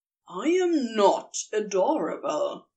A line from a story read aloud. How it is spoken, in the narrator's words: grumbled at last, his cheeks burning